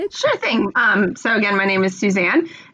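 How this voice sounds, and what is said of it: American accent. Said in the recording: “You can probably tell from my accent, I am an American.”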